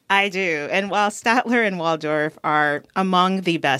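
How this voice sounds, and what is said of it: Usual voice. Nothing is said of it.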